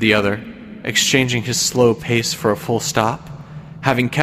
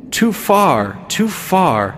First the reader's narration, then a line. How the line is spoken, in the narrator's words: exclaimed the goodman